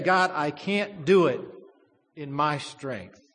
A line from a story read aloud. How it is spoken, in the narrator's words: God says